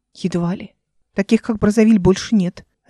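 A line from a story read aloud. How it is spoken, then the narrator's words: Sharp, confident reply. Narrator (Russian): резко и уверенно ответила она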